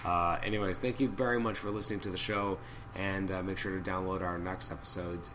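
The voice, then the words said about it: Strained, hoarse voice. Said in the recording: “even though I'm losing my voice”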